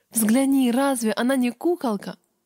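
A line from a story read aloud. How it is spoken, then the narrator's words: Mother's exclamation. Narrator (Russian): Мама воскликнула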